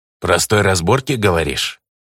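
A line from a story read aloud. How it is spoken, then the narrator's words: Goblin's croaking snort. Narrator (Russian): квакающе хмыкнул гоблин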